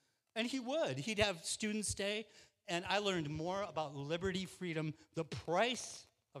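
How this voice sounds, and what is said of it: Usual voice. Nothing is said of it.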